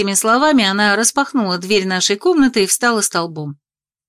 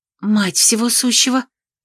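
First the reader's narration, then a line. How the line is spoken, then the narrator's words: Astonished breathless exclamation. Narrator (Russian): изумленно выдохнула Элина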